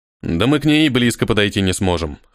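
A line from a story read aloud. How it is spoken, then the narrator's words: Scoffing grunt. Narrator (Russian): хмыкнул Йозас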